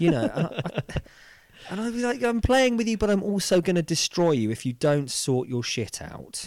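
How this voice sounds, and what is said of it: Usual voice. Nothing is said of it.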